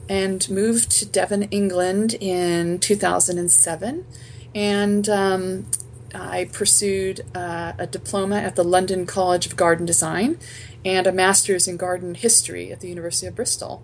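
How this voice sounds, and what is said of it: Seattle American accent. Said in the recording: “has a Seattle accent and not a Devon accent.”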